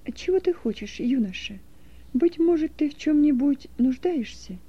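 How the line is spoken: Gentle question. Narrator (Russian): ласково спросила

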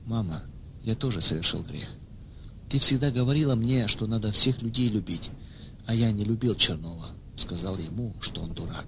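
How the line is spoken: Clearly spoken. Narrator (Russian): Ваня ясно произнес

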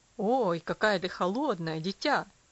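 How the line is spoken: Father exclaiming. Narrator (Russian): воскликнул отец

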